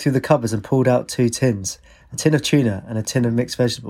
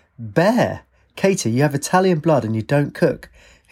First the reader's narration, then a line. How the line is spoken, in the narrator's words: her father opened a cupboard and cried